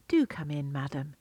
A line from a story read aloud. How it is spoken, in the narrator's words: said kindly